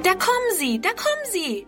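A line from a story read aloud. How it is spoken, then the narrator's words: Calling. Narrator (German): ruft Friedrun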